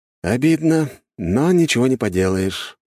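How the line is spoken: Sigh. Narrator (Russian): вздохнул я

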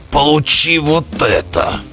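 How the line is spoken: Growled reply. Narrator (Russian): в ответ прорычал Белвар

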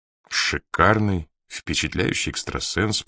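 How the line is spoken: Muttered. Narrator (Russian): пробормотал Макдоналл

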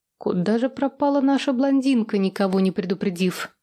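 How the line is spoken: Confused mutter. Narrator (Russian): Растерянно пробормотала я

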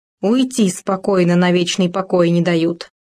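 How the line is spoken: Habitual grumbling. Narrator (Russian): привычно заворчал

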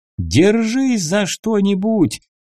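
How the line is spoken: Yelling. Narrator (Russian): заорал я

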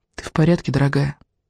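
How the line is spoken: Quiet question. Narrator (Russian): тихо спросила Изабель

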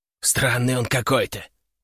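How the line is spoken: Muffled whisper. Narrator (Russian): услышал я приглушенный шепот

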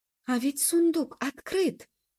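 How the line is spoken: Exclamation. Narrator (Russian): воскликнула Табита

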